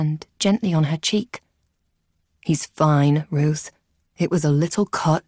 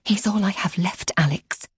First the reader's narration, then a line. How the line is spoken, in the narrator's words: she hissed